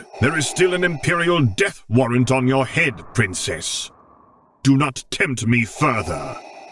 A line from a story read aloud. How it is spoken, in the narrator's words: Vader thundered